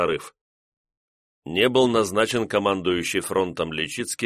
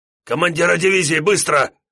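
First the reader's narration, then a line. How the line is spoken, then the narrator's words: Hoarse shout cracking into falsetto. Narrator (Russian): охрипшим голосом, срывающимся на фальцет, крикнул Личицкий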